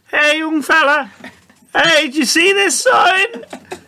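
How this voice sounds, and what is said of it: Imitates a lollipop lady's voice. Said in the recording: “It's a lollipop lady accent.”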